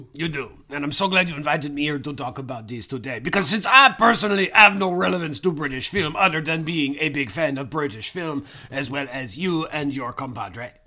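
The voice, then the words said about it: Put-on British accent. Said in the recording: “I thought you did have a British accent. ... You know I sound like I'm from Surrey, but I'm not from Surrey.”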